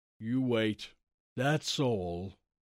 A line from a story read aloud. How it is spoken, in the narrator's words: he said slowly